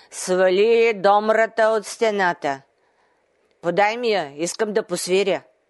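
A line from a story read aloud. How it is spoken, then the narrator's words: Giant commanding. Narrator (Bulgarian): великанът ... заповядал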